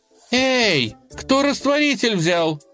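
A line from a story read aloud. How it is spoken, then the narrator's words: Shouted. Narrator (Russian): крикнула она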